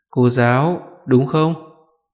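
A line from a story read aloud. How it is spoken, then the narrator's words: Stiff twitching reply. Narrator (Vietnamese): Môi Thanh Hà giật giật đáp lại bằng một giọng cứng ngắc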